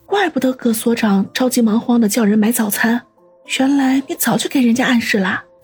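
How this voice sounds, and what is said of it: Quiet, muttered speech. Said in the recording (Chinese): “小声嘀咕”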